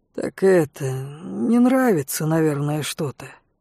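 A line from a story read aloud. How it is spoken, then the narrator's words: Mumbled. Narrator (Russian): промямлил Берон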